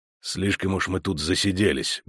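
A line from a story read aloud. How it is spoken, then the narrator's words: Grumbled. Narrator (Russian): буркнул ведьмак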